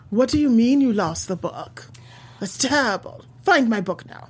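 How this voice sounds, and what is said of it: Pretentious British accent. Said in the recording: “pretentious British accent”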